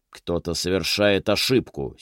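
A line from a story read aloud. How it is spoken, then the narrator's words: Angry retort amid commotion. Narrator (Russian): сердито бросил мэр посреди всеобщего смятения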